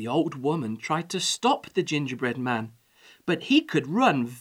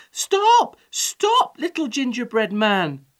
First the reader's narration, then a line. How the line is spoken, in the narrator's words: cried the old woman